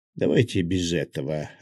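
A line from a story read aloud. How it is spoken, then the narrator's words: Growl. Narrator (Russian): рыкнул я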